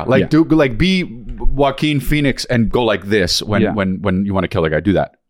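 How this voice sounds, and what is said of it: Usual voice. Nothing is said of it.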